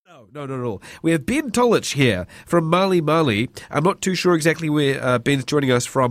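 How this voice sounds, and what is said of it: Sick-sounding voice. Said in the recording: “I am a little bit sick, as you might be able to hear in my voice”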